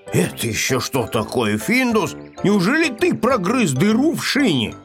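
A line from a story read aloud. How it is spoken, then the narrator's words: Angry question. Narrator (Russian): сердито спросил котенка хозяин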